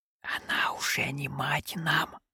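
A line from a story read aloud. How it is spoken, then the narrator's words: Hiss. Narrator (Russian): прошипел Том Джон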